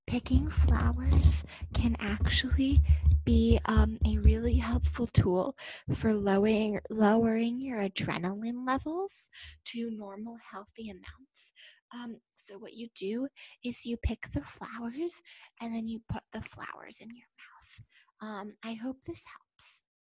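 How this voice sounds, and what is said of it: Soft whispery ASMR voice. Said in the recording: “this is my ASMR voice”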